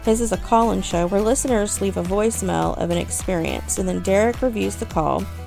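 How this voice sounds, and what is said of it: Southern American accent. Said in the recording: “If y'all like my accent, you'll love these two old boys from Texas ... the South”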